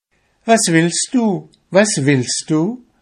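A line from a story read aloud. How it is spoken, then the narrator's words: Calling out. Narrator (German): rief sie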